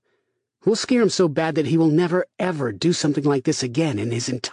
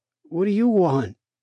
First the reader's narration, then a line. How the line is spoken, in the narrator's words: asked sleepily